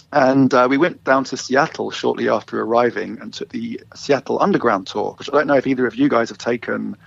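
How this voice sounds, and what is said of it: English London accent. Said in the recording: “You might hear from my accent, I'm not originally from Vancouver. I am from London, England originally.”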